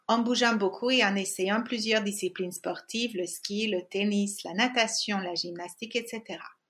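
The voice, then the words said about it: Hungarian accent in French. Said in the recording (French): “j'ai grandi en Hongrie, d'où mon accent”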